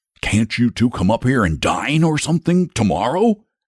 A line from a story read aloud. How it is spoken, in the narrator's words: asked the dragon eagerly